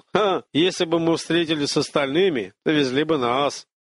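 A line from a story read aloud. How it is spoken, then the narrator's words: Chuckling reply. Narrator (Russian): С хохотком отозвался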